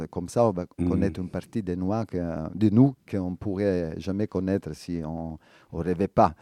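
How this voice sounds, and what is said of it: Strong Italian accent. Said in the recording (French): “un terrible accent italien ... c'est un énorme accent italien”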